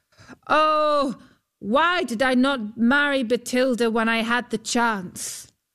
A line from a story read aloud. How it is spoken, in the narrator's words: Huldbrand called out